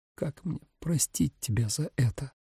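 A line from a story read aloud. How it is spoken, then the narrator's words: Strained, choked voice. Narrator (Russian): сдавленным голосом произнесла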